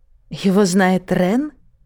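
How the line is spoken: Outwardly calm reply. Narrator (Russian): внешне спокойно ответила Лайза

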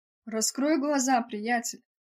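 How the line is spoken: Laughing. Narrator (Russian): Рассмеявшись, Вендел

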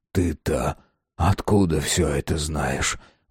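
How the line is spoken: Muffled question. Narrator (Russian): глухо спросил Кайсаров

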